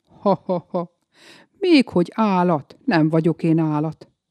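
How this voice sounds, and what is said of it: Deep-voiced laughing character. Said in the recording (Hungarian): “Mély hangon nevetni kezdett.”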